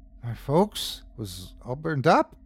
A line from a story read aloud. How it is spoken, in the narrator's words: faltered Jonas